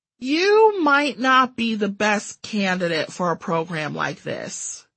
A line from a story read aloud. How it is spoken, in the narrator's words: she sighed